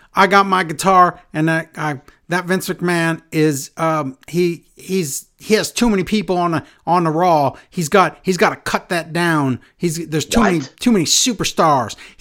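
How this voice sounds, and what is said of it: Imitates another person's voice. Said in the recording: “I don't know what my accent is for him”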